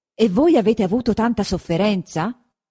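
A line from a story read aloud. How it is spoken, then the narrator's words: Exclamation. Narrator (Italian): esclamò il conte Attilio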